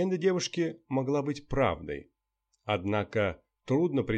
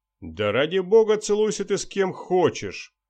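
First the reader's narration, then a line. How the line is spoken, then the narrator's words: Scornful snort. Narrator (Russian): фыркнул журналист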